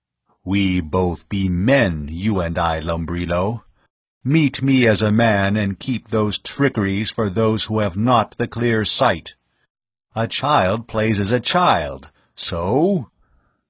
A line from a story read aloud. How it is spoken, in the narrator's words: Tao's voice came in a rumble